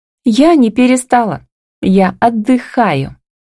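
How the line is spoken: Laughing. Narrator (Russian): смеясь

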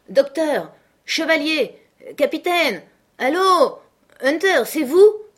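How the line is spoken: Shouting voices. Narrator (French): criait-on

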